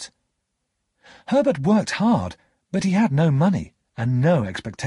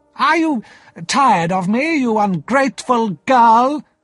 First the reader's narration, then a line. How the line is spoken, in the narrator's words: Miss Havisham cried